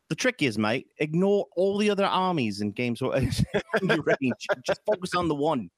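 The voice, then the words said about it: Put-on Australian or New Zealand accent. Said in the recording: “I don't know what accent that was. That was like Australian. ... It was like kind of New Zealand, sort of.”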